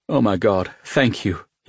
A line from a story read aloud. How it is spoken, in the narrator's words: he said, his voice weak